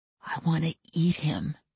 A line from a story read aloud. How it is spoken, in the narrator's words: he whispered